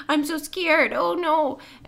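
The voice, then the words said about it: Imitates a scared female character. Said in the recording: “that was a great impression.”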